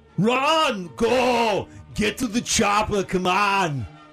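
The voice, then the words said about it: Arnold Schwarzenegger impression. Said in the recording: “It's Arnold Schwarzenegger.”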